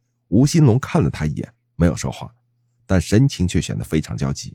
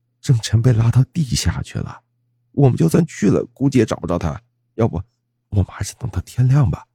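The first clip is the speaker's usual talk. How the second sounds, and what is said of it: Quiet, hushed voice. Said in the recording (Chinese): “小声说道”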